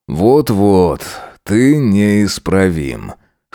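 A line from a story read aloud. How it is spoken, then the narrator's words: Amused snort. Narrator (Russian): хмыкнул он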